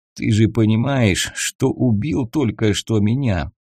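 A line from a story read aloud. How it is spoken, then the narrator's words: Hoarse young man. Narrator (Russian): спросил парень севшим голосом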